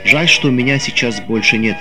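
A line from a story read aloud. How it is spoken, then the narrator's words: Plain. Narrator (Russian): говорит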